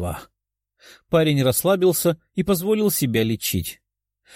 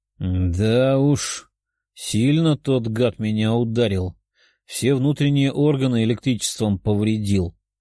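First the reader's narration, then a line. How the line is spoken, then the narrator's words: Grumbling demon. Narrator (Russian): ворчал демон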